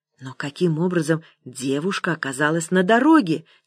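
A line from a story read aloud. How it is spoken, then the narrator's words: Quiet question. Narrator (Russian): тихо спросил я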